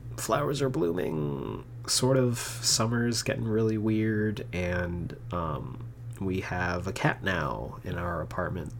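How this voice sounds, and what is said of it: Stuffy, congested voice. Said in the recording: “I'm sure you can hear I sound really stuffy. ... My allergies have been killing me”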